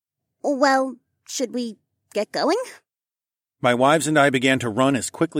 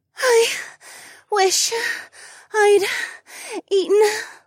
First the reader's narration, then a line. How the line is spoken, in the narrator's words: Rachel gasped